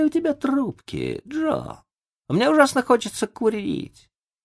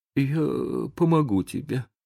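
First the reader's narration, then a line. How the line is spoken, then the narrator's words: Trembling mutter. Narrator (Russian): пробормотал Том дрожащим голосом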